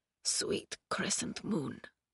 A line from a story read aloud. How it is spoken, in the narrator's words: he whispered, his lips barely able to form the words